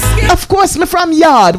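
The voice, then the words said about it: Jamaican patois accent. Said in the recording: “you don't speak Jamaican”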